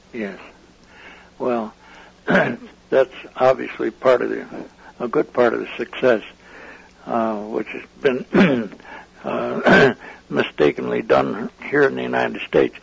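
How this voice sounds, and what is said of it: Hoarse, failing voice. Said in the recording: “I'm losing my voice, I guess.”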